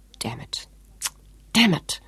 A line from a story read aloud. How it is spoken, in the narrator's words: Sean repeated bitterly